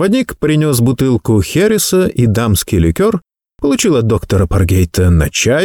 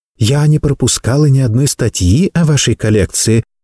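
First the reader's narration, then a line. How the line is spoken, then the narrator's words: Timid remark. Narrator (Russian): робко заметила Анна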